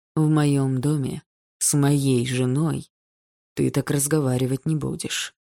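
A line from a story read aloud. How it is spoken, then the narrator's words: Frighteningly calm. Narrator (Russian): все тем же пугающе спокойным голосом сказал Андрей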